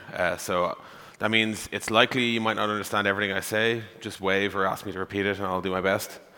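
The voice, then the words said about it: Irish accent. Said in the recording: “I am from Ireland. That's the accent you're hearing.”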